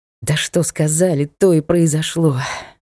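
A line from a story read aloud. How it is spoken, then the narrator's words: Annoyed sigh, bearded man. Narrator (Russian): с досадой вздохнул бородатый Листон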